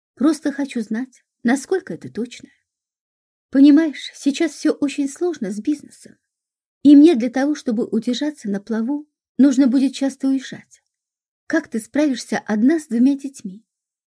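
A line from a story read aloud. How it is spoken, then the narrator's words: Sighing. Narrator (Russian): Шура вздохнула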